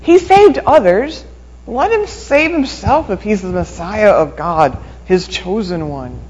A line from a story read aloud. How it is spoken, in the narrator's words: the leaders scoffed at him, saying